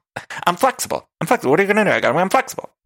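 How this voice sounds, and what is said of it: Bad impression of Ramona. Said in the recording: “I can't do a Ramona. I need to work on a Ramona... That doesn't sound like her. That's a bad impression.”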